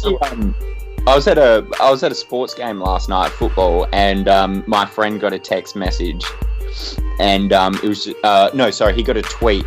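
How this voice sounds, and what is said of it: Australian accent. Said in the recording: “you also have an Australian accent”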